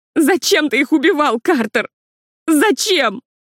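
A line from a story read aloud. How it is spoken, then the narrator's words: Sobbing shout. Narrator (Russian): крикнула Лили, не сдержав рыданий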